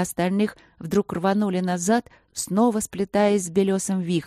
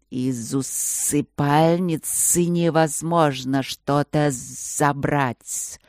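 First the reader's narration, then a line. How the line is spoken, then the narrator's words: Thoughtful booming spirit voice. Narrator (Russian): задумчиво прогудел один из духов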